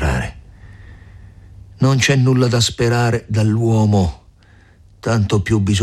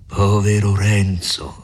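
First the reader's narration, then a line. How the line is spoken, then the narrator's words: Grave, compassionate voice. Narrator (Italian): rispose il frate con una voce grave e pietosa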